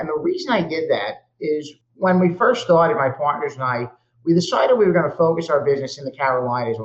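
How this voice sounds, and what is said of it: Brooklyn New York accent. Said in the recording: “I'm originally from Brooklyn, New York. Perhaps the accent gives it away, although people tell me I'm losing it now.”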